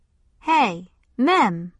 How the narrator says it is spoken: somebody said

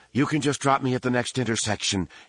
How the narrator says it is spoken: said, panting

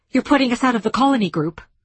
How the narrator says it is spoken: she blurted

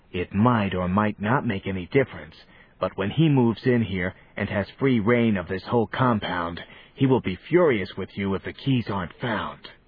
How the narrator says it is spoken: Johnny whispered again

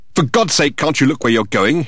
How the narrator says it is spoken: exclaimed

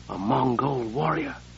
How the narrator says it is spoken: Sable whispered

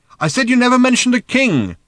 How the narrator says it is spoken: shouted Arthur again

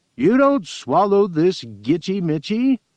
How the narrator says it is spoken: he kept roaring across to Obsel

